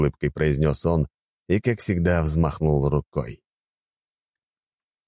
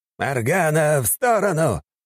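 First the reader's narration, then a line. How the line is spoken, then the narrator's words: Urgent shout. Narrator (Russian): успел крикнуть мастер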